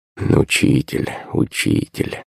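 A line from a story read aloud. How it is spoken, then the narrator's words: Muttering under breath. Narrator (Russian): забормотал под нос Иван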